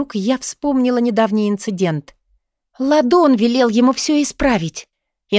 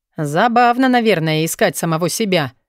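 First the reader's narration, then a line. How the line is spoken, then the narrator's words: Menacing snort. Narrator (Russian): угрожающе хмыкнул Вёлвинд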